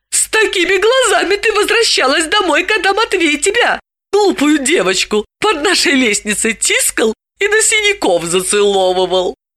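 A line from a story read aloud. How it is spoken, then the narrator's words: Embarrassed exclamation. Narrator (Russian): Далила, зардевшись, воскликнула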